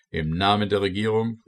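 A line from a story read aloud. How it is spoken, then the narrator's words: Called out. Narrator (German): rief er uns zu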